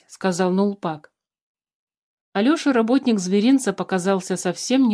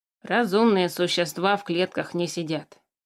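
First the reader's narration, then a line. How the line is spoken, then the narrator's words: Grumbling. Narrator (Russian): проворчал Тимиук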